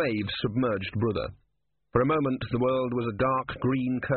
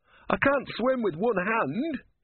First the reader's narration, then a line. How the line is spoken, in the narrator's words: he shouted as he broke surface again